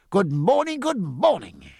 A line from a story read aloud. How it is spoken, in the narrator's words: he cried, smiling with great affection